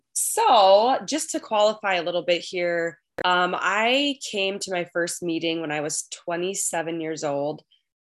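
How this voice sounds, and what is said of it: Strong Minnesotan accent. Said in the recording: “I am a recovered compulsive overeater from Minnesota ... I am recovering from a cold ... my Minnesotan accent is going to come out even stronger because of it. So if you've seen the movie Fargo, that's pretty much what I sound like.”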